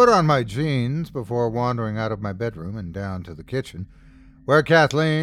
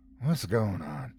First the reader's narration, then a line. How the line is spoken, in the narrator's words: murmured